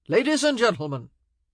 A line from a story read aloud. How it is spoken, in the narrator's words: Anthony said loudly